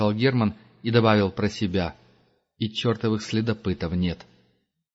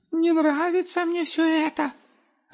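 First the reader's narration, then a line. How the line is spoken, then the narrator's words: Squeaky voice. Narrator (Russian): опять пропищал Густав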